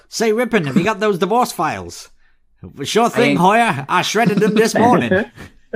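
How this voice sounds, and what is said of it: Badly done Manhattan accent. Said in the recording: “I've butchered the accent, but they were meant to be from like Manhattan. Sleazy Manhattan lawyers.”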